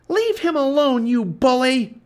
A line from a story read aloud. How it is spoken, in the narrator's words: she cried